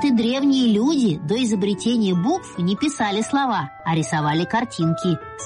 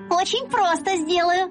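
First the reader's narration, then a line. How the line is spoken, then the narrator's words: Joyful answer. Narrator (Russian): радостно отвечаю я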